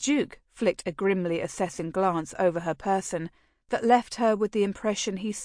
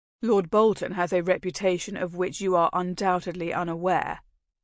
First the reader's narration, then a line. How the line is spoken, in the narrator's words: he said then